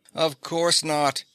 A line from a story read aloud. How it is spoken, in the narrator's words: Faye denied with a bright, incredulous laugh